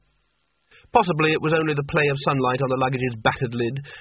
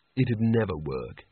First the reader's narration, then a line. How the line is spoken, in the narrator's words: he said